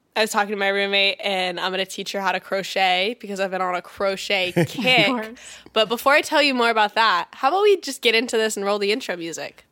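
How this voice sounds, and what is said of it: Slightly stuffy, congested voice. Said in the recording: “Do I sound stuffy? Do I sound very stuffy?... A little bit.”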